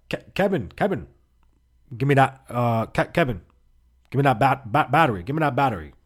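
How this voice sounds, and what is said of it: Poorly done put-on accent. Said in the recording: “I'm doing a terrible accent.”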